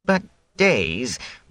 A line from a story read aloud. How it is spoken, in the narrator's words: Wit whined